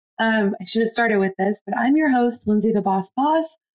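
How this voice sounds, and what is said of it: Hoarse, rough voice. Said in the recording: “losing my voice, and this is another one of those times where I sound terrible ... My voice typically sounds a lot smoother than this”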